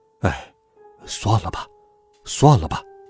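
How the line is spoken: Quiet, resigned. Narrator (Chinese): 爸爸小声地说

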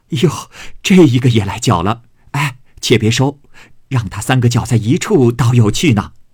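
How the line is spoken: Group laughing. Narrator (Chinese): 众人笑道

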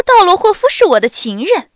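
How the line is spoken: With a slight laugh. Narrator (Chinese): 艾伦笑了一下，说

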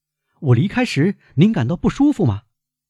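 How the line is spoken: Loud. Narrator (Chinese): 他进来时大声说

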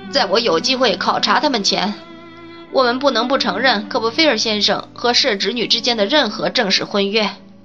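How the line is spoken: Sighing. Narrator (Chinese): 拉芬尼亚小姐叹了口气说道

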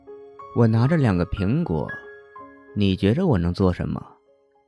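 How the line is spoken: Soft, quiet. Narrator (Chinese): 声音很轻

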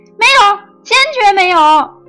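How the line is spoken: Earnest, heartfelt. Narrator (Chinese): 他语重心长的说

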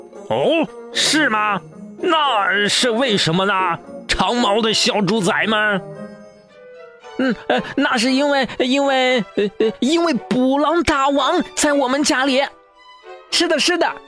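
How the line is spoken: Shouting. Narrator (Chinese): 泰利喊道

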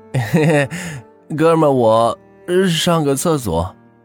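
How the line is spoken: Helpless laugh. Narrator (Chinese): 青柠无奈的笑了笑

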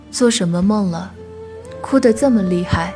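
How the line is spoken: Sighing. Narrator (Chinese): 他叹息

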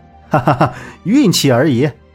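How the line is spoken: Laughing. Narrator (Chinese): 萧平浪笑道

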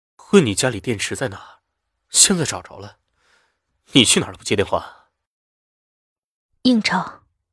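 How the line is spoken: Murmuring. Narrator (Chinese): 他喃喃着

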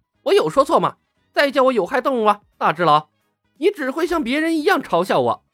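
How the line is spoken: Angry roar. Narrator (Chinese): 火箭浣熊 愤怒的吼道

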